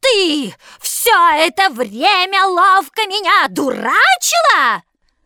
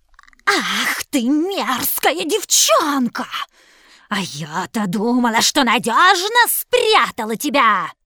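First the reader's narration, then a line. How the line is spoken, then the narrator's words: Witch's hiss. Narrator (Russian): зашипела колдунья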